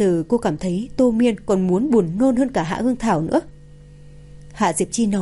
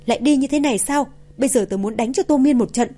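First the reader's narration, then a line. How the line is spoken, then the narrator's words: Yelling. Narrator (Vietnamese): Thẩm Lệ la hét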